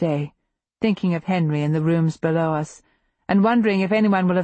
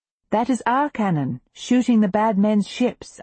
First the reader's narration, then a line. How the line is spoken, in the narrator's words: I say cheerfully